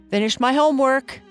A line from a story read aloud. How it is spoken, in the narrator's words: Esther's brother said loudly